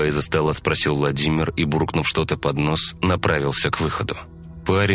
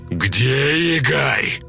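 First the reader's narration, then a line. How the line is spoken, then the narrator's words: Roaring. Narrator (Russian): Взревел Владимир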